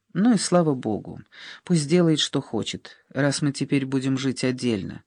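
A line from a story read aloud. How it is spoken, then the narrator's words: Tired thought. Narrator (Russian): устало подумала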